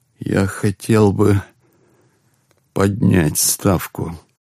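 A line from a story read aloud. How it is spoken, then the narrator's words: After a deep sigh. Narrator (Russian): глубоко вздохнул и произнес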